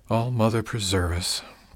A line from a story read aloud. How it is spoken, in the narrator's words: Tanith muttered